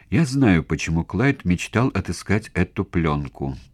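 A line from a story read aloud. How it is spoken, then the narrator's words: Calm tone. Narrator (Russian): произнесла Кими спокойным тоном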